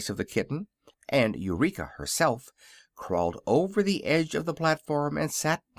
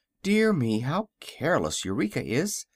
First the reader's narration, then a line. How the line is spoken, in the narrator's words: exclaimed the girl, much distressed